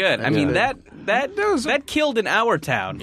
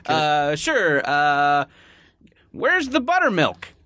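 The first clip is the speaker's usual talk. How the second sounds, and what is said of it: Funny old man voice. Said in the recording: “I can do a funny old man voice.”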